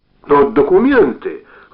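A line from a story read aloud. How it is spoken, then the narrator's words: Exclaiming. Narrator (Russian): воскликнул Володя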